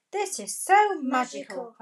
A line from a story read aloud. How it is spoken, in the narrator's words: cried Peppa